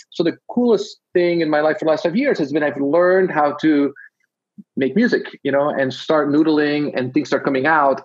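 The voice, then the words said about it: Belgian Dutch-accented English. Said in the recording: “I'm detecting a bit of an accent. Is it ... Dutch? ... I'm from Belgium ... I'm somewhere in like Canadian Dutch”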